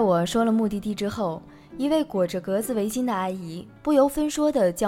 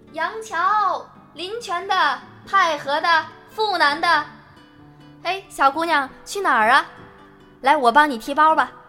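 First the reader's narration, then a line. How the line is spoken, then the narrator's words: Loud, eager hawkers' yelling. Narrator (Chinese): 热情的大叔大妈扯着嗓子喊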